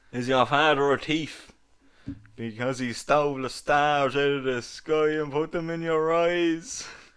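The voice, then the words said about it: Poor fake Dublin accent. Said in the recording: “Can you do a Dublin accent? ... That's not a Dublin accent. ... your fake Dublin accent”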